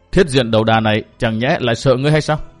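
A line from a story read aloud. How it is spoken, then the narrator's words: Cold sneering reply. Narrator (Vietnamese): Y liền cười nhạt một tiếng và đáp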